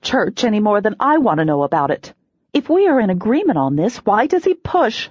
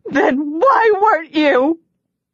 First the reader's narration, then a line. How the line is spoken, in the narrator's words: I shout